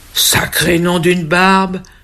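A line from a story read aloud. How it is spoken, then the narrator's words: Exclaiming. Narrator (French): s'exclame le Père Noël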